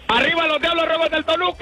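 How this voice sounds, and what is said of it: Shouting loudly. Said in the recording (Spanish): “no grites, güey! ... ¡ ... no grites!”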